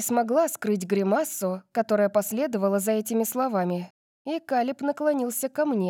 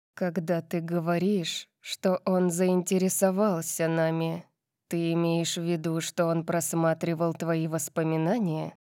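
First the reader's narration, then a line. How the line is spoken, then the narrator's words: Grim question. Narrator (Russian): мрачно спросил Калиб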